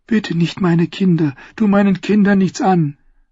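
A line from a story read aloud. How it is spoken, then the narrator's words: Pleading. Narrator (German): flehte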